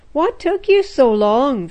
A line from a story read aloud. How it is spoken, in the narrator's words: they called out